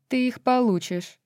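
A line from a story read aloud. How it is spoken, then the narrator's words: Cold reply. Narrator (Russian): холодно ответила астроному Джезиба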